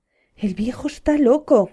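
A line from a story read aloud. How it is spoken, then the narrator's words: Furious woman shouting. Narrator (Spanish): gritó la mujer de Lot, que no pudo seguir reprimiendo su furia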